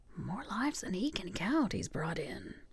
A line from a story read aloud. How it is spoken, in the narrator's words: the other whispered back